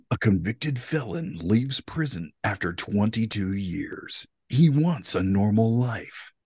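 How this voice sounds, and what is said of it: Dramatic movie trailer voice. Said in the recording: “a little bit of a movie trailer voice”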